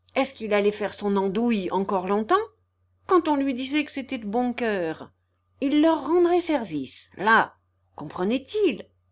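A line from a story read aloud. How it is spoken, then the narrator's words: Furious bellow. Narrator (French): d'une voix furibonde, il gueula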